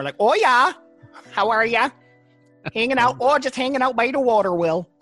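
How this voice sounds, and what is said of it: Put-on rural Vermont accent. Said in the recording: “there's still bumpkins in Vermont. They just have a different type of accent.”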